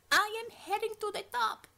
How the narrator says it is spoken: screamed over the cacophony of combat

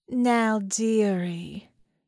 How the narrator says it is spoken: the voice purred, hovering just over her

